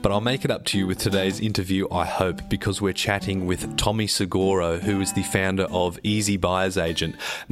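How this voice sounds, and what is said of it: Congested, flu-affected voice. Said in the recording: “slightly man-flued, weird radio voice”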